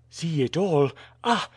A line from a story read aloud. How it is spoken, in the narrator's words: cried Alcide